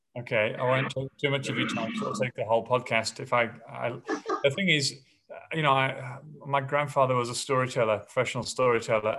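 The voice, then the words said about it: English accent. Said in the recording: “you've got an english accent i can still hear it there”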